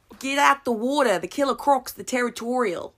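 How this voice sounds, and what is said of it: Put-on Australian accent. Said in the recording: “I can only say a very choice phrase in an Australian accent.”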